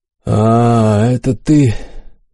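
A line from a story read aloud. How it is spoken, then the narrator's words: Tired drawl. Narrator (Russian): устало протянул император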